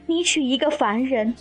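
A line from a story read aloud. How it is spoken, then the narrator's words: Warm intimate female voice. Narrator (Chinese): 素锦天妃的声音亲亲切切地传出来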